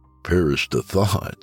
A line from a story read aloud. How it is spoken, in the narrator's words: I said with a chuckle